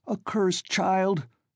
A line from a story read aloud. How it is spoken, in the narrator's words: Svidrigaïlov cried